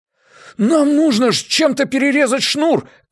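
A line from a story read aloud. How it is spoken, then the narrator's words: Shouted. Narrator (Russian): крикнул Джеспер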